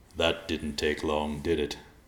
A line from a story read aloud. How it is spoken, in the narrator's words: Riverpaw chuckled